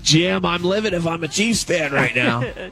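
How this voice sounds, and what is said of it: Imitates a sports commentator's voice. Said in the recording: “That's a pretty good impression. ... That's a pretty good impression of Tony Romo.”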